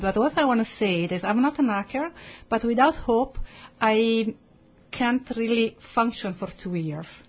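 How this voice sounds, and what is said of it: Strong Italian accent. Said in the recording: “my strong Italian accent”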